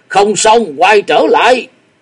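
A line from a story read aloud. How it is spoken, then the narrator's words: Quick loud shout. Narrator (Vietnamese): Nguyên Pháp đại sư nhanh miệng hét lớn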